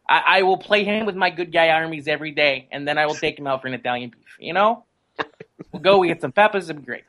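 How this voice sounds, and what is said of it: Weak put-on Chicago accent. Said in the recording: “my poor attempt at a Chicago accent”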